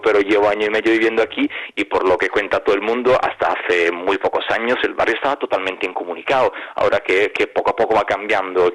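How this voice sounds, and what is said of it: Italian accent speaking Spanish. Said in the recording (Spanish): “mi acento me delata ... obviamente es italiano”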